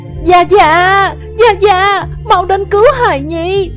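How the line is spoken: Louder urgent call. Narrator (Vietnamese): Nàng lại lớn tiếng hơn

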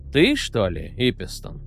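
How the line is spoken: Soft ingratiating question. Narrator (Russian): вкрадчиво и почти ласково осведомился Орвик

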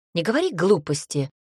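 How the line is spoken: Snorting. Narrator (Russian): фыркнула Альберта

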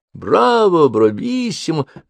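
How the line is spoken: Crowd shouting. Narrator (Russian): закричали зрители

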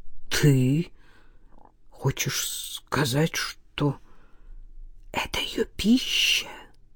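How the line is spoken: Quiet question. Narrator (Russian): тихо спросил Назаров

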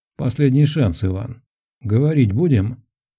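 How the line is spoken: Plain question. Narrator (Russian): спросил Ахметов

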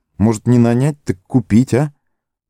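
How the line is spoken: Uncertain. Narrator (Russian): добавил он неуверенно

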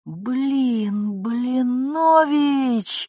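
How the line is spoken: Inner groan. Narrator (Russian): Он мысленно аж застонал

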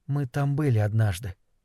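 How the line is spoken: Calm. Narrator (Russian): спокойно сказала ему Сюзанна

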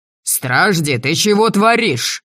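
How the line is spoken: Barking into ear. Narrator (Russian): рявкнули мне на ухо

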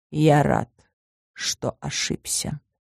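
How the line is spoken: Quiet. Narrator (Russian): тихо произнес

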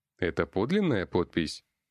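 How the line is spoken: Plain. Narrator (Russian): спросил я

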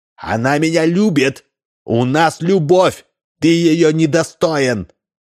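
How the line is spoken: Shouted reply. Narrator (Russian): он закричал в ответ

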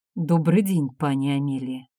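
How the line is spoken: Soft accent. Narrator (Russian): начал он с мягким акцентом

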